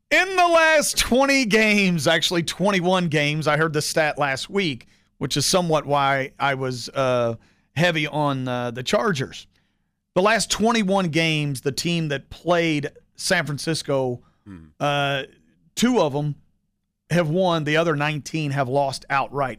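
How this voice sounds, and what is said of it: Impression of Brad Taylor. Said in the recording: “My best Brad Taylor impression.”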